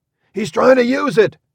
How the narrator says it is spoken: someone cried

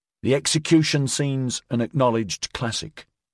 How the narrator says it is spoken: Regis said

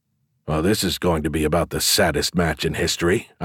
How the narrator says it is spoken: I grumbled

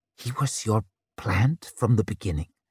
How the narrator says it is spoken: she whispered

